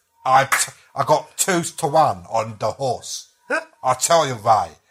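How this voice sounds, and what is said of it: Bad put-on Cockney accent. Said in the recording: “an American trying to do a Cockney accent thing ... he's doing this accent ... It's so bad.”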